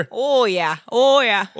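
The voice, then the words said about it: Exaggerated Swedish or Minnesota accent. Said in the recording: “my impression of a Swedish person ... I like the Minnesota accent”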